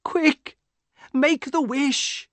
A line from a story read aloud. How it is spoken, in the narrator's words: cried